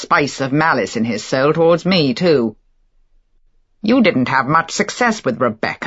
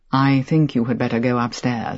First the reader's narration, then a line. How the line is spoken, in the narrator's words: he said quietly